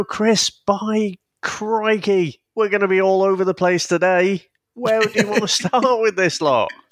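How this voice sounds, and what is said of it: Exaggerated put-on Australian accent. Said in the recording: “Is that Australian accent ... if that's what it was? ... stupid Australian accent”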